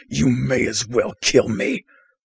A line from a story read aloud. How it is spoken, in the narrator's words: The cultist will snarl